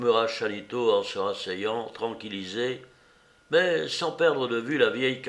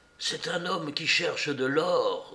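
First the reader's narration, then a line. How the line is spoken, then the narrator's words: Low voice. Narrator (French): dit-il à voix basse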